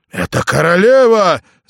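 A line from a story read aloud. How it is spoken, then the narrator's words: Soldier yelling. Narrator (Russian): завопил сотник шемит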